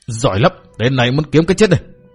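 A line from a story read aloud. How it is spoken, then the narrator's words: Furious shouting. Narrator (Vietnamese): Túc Xá giận dữ đến lồng lộn, chân giận trợn ngược, dậm chân trợn ngược mắt quát tháo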